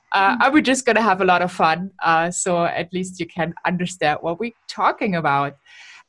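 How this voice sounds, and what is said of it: German-accented English. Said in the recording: “my German accent”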